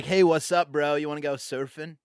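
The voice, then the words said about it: Put-on Southern Californian surfer-dude accent. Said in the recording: “a Southern Californian kind of dude ... hone that accent”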